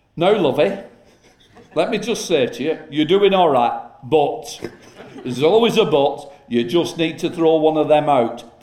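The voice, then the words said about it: Betty Boothroyd impression, Yorkshire accent. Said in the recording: “Betty Boothroyd. Fantastic, from the north, Yorkshire accent”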